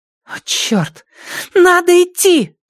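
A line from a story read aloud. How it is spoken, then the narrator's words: Shout. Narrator (Russian): закричала Вив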